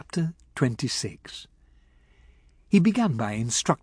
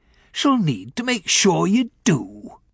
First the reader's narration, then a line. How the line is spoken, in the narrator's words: he said gruffly